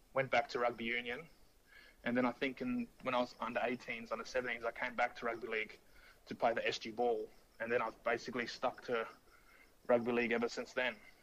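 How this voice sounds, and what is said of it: Foreign accent. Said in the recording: “you've got the accent,”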